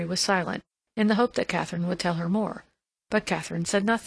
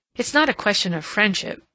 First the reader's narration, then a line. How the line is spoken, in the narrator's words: Mary exclaimed, her anger rising to her own surprise